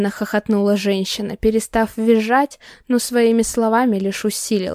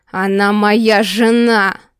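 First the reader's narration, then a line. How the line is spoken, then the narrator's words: Thunderous bark. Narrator (Russian): рявкнул так, что задрожали стекла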